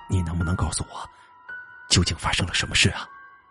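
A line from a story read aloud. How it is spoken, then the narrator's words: Meek, humble. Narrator (Chinese): 父亲低声下气的说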